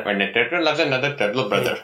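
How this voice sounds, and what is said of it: Imitated Indian accent. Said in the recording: “do a bad impersonation of an Indian accent ... it's a very good impression, brother.”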